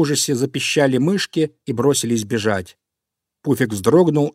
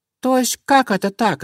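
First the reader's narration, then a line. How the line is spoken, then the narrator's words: Squeaking mice. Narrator (Russian): запищали мышки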